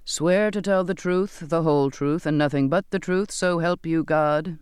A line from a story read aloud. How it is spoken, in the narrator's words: the captain intoned